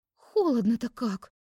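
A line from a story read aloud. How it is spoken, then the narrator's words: Exclaimed. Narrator (Russian): воскликнула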